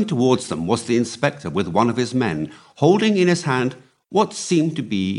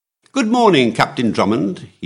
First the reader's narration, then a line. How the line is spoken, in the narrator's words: he cried cheerfully